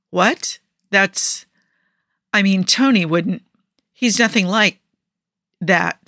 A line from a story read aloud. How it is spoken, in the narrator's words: Steve stammered